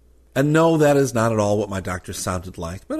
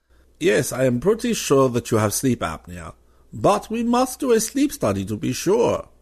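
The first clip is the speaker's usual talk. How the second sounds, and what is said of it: Put-on classy German accent. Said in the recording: “I thought I'd give him a classy German accent for entertainment purposes”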